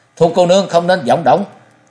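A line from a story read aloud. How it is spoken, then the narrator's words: Frightened loud shout. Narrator (Vietnamese): Chàng sợ hãi quát to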